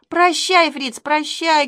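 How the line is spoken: Shouting over noise. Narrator (Russian): кричала сквозь грохот колес

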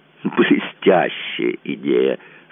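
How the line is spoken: Laughing. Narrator (Russian): сказал Гирланд, смеясь

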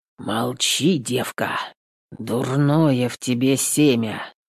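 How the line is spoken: Dull muffled voice. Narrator (Russian): глухо сказал басурман

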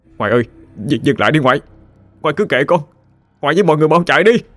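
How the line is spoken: Anguished scream. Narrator (Vietnamese): Tôi đau đớn mà hét lên

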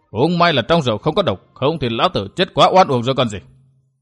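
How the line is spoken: Angry. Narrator (Vietnamese): Người mặt sẹo tức giận

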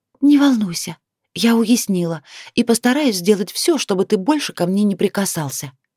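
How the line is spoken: Snorting whisper. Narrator (Russian): хмыкнула и прошептала

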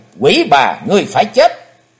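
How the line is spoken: Loud vengeful shout. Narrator (Vietnamese): Thù khí bốc cao ngàn trượng, Chí Tôn hét lớn

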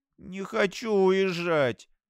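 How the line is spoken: Whining. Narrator (Russian): захныкала Пиви

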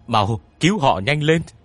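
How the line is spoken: Scream. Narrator (Vietnamese): Tiếng thét này

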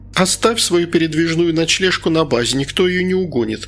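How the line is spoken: Giggling. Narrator (Russian): хихикнула Инга

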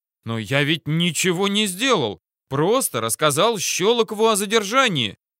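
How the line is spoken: Hotheaded youthful exclamation. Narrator (Russian): воскликнул, упирая на свою молодость и горячность

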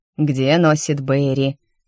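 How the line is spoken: Muttered grumble. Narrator (Russian): под нос проворчала Бален

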